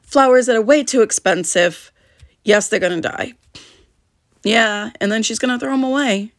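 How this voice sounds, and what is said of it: Slightly hoarse, strained voice. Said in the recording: “Sorry, I'm still getting over laryngitis a little bit.”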